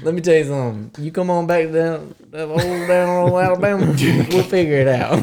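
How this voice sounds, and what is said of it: Southern Alabama accent. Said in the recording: “whenever they heard your accent? ... there's not a lot of people from Alabama there”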